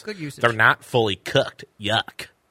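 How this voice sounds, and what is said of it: Imitates another person's voice. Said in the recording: “that your impression of Carol”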